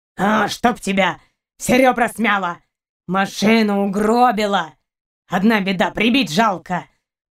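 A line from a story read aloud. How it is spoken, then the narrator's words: Growling. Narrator (Russian): Продолжал рычать каранец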